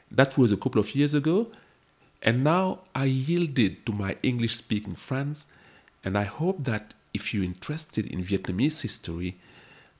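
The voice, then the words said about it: French-accented English. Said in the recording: “I published this series initially in French, as you may hear from my accent.”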